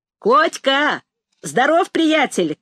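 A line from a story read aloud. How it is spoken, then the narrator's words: Shout from above. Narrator (Russian): крикнул сверху Расщепей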